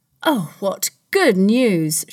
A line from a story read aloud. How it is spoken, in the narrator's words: Shylock cried